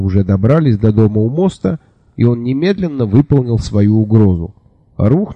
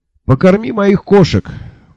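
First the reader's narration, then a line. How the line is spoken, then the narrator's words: Shouting after someone. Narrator (Russian): крикнул я вслед своему коллеге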